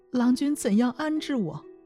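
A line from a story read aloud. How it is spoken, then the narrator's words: Weeping, pleading. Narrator (Chinese): 公主正与身边的宫女抱头哀哭，说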